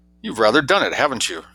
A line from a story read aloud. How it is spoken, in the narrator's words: He chuckled